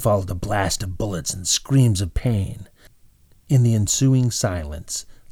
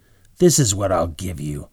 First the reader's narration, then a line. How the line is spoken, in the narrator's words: Bob growl